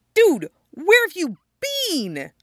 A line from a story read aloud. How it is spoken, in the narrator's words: Stiles blurts out